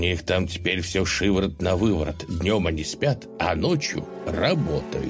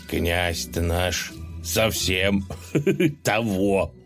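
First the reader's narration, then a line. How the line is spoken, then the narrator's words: Short chuckle. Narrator (Russian): хохотнул Колыван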